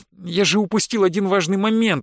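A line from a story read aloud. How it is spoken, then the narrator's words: Exclaiming. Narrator (Russian): воскликнул Лукас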